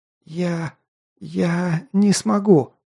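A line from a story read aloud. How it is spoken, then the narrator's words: Stammering mumble. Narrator (Russian): заикаясь, пробормотала та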